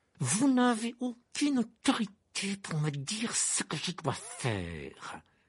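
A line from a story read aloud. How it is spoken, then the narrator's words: Hissing protest. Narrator (French): protesta Rogue d'une voix sifflante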